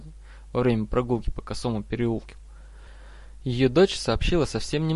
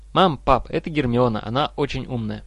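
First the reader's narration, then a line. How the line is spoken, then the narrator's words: Boy's joyful exclamation. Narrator (Russian): мальчик воскликнул прежним радостным голоском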